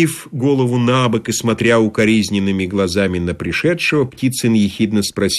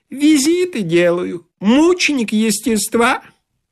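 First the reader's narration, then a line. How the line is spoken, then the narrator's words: Comic high-pitched squeak. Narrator (Russian): Блондин юмористически пропищал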